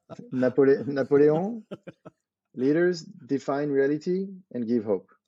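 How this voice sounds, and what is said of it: Put-on French accent. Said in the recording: “in French with a French accent? It sounds amazing.”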